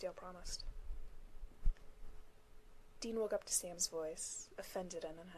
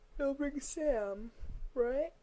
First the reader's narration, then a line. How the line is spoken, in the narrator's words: Dean said around a yawn